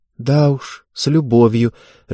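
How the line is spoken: Confused mutter. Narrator (Russian): растерянно пробормотала Ева

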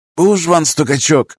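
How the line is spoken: Words through teeth. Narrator (Russian): процедил Борси

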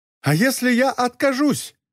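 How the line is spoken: Sudden indignant exclamation. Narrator (Russian): воскликнул господин Формери в неожиданном приступе возмущения

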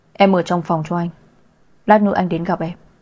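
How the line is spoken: Low deep voice. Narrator (Vietnamese): anh trầm giọng nói

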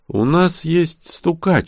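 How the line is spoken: Sighing. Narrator (Russian): вздохнул я

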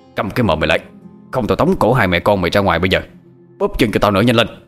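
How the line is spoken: Harsh shout. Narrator (Vietnamese): Lão Tuất lại quát

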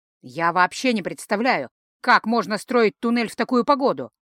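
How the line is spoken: Muttering grumble. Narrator (Russian): пробурчал Ранрео

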